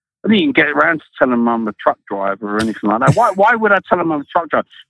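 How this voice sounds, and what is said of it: English London accent. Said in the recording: “I got a funny accent. ... I'm from London. ... I'm English.”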